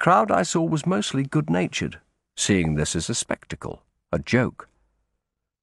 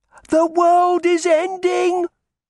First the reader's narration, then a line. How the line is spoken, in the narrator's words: he yelled